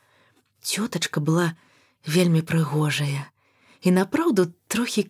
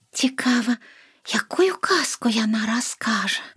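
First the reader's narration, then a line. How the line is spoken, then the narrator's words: Whispered. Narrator (Belarusian): прашаптала Лена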